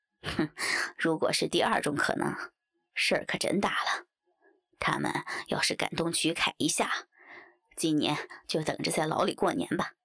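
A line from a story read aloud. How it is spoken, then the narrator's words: Sinister sneering laugh. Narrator (Chinese): 李家不由狞笑道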